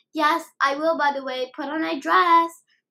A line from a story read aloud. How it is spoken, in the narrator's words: Nico exclaimed